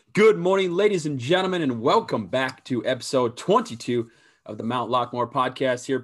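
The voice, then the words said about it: Hoarse, mostly lost voice. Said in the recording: “I did lose my voice. It's March Madness, obviously, over the weekend, so it might be a struggle”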